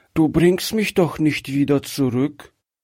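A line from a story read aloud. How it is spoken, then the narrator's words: Frightened child, weak voice. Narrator (German): fragte das Kind ängstlich mit schwacher Stimme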